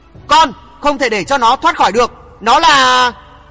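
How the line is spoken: Strained shout. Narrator (Vietnamese): Bà ta cố gượng thét bảo Hoàng Thượng Chí

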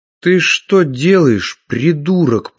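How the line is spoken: Hissing. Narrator (Russian): прошипел

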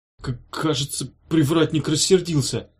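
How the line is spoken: Trembling voice. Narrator (Russian): Дрожащим голосом сказал Евгеша

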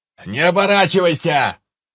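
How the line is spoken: Distant shout from below. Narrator (Russian): прокричал откуда-то снизу невидимый с крыши Анджей

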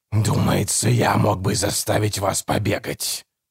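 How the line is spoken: Growl. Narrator (Russian): прорычал голос

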